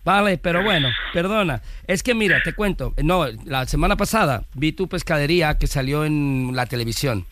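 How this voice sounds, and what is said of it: Put-on Galician Spanish accent. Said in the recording (Spanish): “pon acento galego ... ya se me siente el acento gallego”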